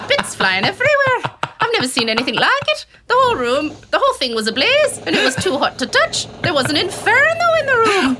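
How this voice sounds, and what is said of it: Put-on Irish or Scottish accent. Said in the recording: “What accent am I doing? I don't know. ... what did I just do? Irish? ... That was Scottish. ... Irish, Scottish.”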